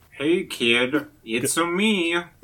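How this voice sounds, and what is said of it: Mario impression voice. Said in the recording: “voice takes on the Mario vocal affectation ... do an impression of ... doing an impression of Mario”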